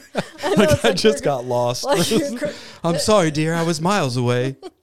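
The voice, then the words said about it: Put-on accent imitating a film character. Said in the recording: “Your accent.”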